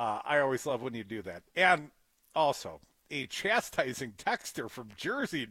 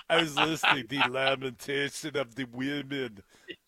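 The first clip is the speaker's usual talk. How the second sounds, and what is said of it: Arnold Schwarzenegger impression. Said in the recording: “best Arnold Schwarzenegger impression.”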